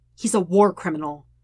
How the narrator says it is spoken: Sokka says harshly

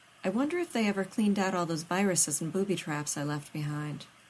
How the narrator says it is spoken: Rodney murmured

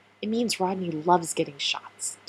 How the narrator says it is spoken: Keller replied

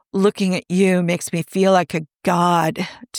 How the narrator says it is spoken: Tony groans

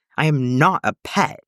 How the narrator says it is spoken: Antilles snarled

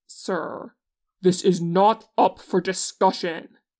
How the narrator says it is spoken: Hyunchik yells

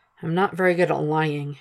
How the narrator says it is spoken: murmurs, heavy with meaning

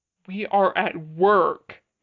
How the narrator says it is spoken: Namjoon says loudly, feeling his face heat

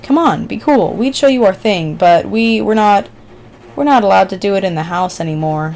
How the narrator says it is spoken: said Darla sadly

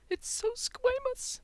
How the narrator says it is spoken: Nick cried

